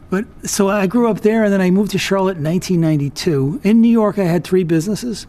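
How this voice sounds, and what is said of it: New York accent. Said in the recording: “I have kind of a New York accent. It's gotten better in the last 20 years or so”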